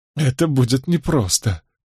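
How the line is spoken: Smiling through tears. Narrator (Russian): улыбнулась Беатрис сквозь слезы

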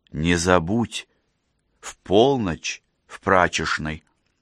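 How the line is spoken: Whisper. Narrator (Russian): шепнула

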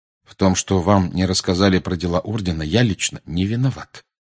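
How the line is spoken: Calm. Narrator (Russian): спокойно проговорил Сириус

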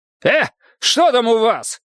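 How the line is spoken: Shouting. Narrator (Russian): крикнул он

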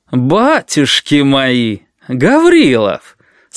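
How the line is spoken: Unmilitary exclamation. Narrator (Russian): Совсем не по-военному воскликнул один из милиционеров

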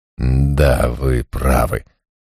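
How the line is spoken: Awkward mumble. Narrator (Russian): пробормотал я с неловкой улыбкой

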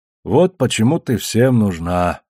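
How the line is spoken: Sighing. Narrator (Russian): вздохнул Фаис

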